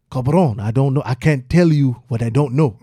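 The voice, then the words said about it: Put-on African accent. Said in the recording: “That's an African accent.”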